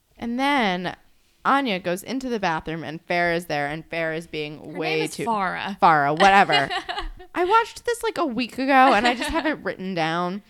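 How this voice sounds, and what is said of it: New Jersey accent. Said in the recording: “I'm from New Jersey. I'm obviously going to say Farah. ... Like, this is my accent. I cannot do anything about this.”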